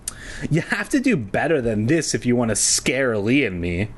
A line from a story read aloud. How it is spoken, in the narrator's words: she said with a sneer